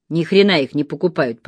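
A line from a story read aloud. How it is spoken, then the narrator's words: Grumbled. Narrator (Russian): проворчал он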